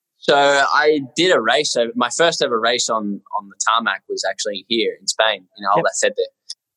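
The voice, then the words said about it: Australian accent. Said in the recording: “Aussie bloke ... I still got my accent”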